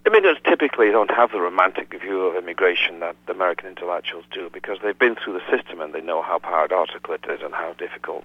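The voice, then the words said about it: Foreign-born immigrant accent. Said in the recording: “as you can instantly tell from my accent ... I'm an immigrant myself”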